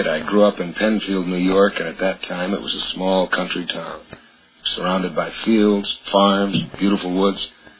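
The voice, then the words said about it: Hoarse, laryngitis-affected voice. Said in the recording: “my voice sounds a little different, I've had laryngitis”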